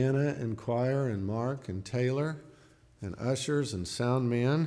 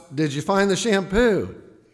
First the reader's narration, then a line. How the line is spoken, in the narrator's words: his wife shouts